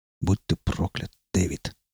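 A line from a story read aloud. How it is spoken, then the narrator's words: Muttered. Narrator (Russian): пробормотал Дорман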